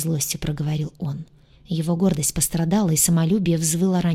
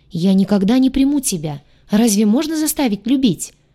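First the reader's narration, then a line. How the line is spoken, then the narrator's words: Angry helpless shout. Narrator (Russian): выкрикнула она, злясь на свое бессилие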